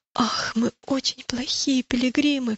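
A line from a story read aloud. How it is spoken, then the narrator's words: Sob. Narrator (Russian): всхлипнул христианин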